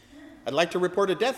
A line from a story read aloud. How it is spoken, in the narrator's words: he said